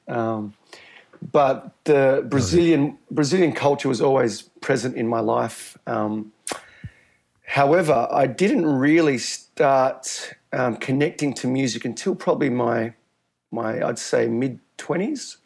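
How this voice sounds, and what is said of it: Thick Australian accent. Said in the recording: “I have such a thick Australian accent.”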